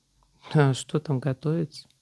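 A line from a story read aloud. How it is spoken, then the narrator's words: Lazy relaxed reply. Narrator (Russian): Лениво ответила Франческа, пригревшись и совершенно расслабившись на солнышке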